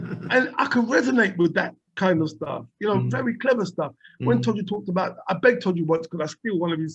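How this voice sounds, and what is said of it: Usual voice. Nothing is said of it.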